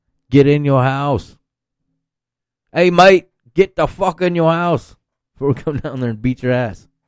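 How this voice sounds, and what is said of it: Bad put-on Australian accent. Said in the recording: “Horrible Australian accent.”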